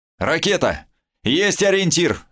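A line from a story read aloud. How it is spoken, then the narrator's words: Shouted. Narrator (Russian): крикнула Сильфида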